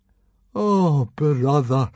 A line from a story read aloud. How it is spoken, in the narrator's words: moaned Fishlegs miserably